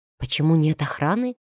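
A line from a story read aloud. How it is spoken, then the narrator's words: Wary whisper. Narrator (Russian): с настороженностью шепнула фон Грейслингу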